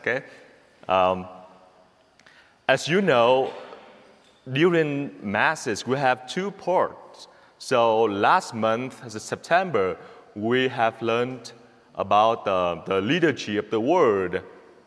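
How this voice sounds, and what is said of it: Noticeable accent in English. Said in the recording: “probably my accent can keep you all awake ... here's my accent”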